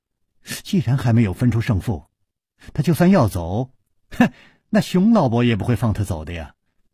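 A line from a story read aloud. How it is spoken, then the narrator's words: Laughing. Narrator (Chinese): 柳无梅笑着说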